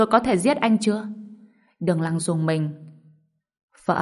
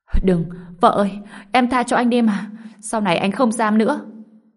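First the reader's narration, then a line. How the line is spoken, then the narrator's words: Frightened desperate shout. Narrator (Vietnamese): Đường Lăng sợ hãi hét lên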